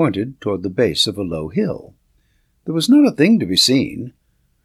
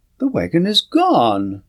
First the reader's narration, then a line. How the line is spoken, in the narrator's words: Sands exclaimed suddenly